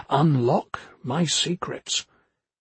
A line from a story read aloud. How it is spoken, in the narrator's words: whispering